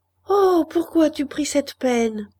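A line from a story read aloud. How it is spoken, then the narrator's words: Exclaiming. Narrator (French): s'écria la Pierronne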